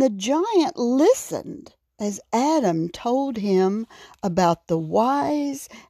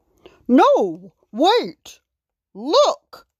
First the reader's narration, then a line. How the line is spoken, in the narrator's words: King Aaron shouted